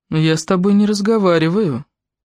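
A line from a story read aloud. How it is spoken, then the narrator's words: Cold. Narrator (Russian): холодно сказала она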